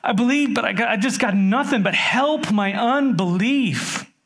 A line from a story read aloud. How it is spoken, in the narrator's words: The father's just cried out and said